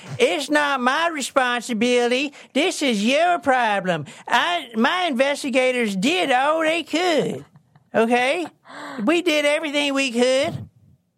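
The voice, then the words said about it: Put-on southern old man voice. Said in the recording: “What is that accent? ... is this his southern accent? like you pretending to be southern? ... Like his southern old man. Yeah. His old man voice.”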